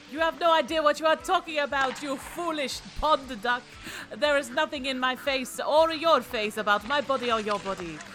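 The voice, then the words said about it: Duck character with foreign accent. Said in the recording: “I don't know whether you're Canadian or Italian”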